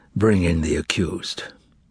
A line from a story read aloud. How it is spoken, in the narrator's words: The procurator said quietly